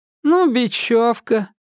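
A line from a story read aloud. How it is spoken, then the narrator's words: Gloomy. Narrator (Russian): мрачно сказал Семен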